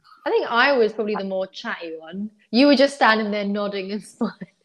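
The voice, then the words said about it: Cockney accent. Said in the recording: “is my Cockney accent too thick right now? ... your Cockney accent”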